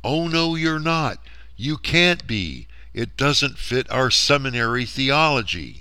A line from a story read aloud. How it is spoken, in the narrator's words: the anti-seedliners are screaming back